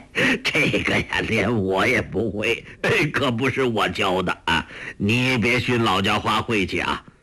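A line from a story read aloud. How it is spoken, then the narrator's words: Laughing. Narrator (Chinese): 洪七公笑道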